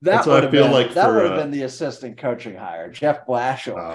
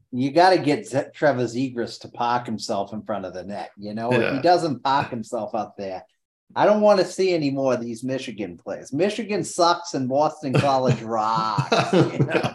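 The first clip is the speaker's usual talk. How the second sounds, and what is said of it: Put-on Boston accent. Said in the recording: “He is very Boston. ... It is, God, that accent, baby.”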